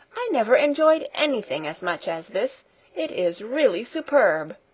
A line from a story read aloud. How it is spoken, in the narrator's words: cried Grandmamma two or three times over